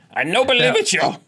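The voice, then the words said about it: Imitation of another man's voice. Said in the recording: “a Walter impersonation”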